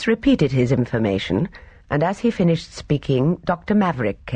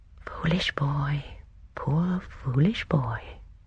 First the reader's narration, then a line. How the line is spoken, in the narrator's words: Miss Marple murmured softly